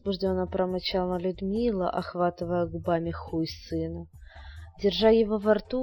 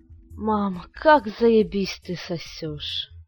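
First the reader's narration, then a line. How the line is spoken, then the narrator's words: Boy moaning. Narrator (Russian): простонал мальчик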